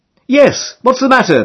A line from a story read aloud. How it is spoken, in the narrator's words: they shout back